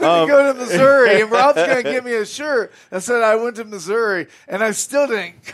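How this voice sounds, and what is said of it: Usual voice. Nothing is said of it.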